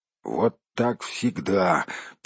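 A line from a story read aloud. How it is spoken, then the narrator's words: Grumbling gnomes. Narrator (Russian): принялись бурчать гномы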